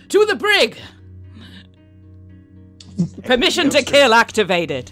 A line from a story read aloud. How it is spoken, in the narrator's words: shout